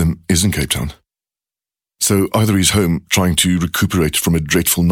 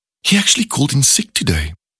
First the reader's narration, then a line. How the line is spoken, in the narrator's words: adds in a surprised tone